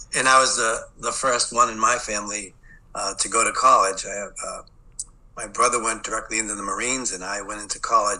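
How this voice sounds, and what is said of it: Boston accent. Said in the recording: “I'm from the city of Boston. I grew up in Boston, so you'll hear that Boston accent.”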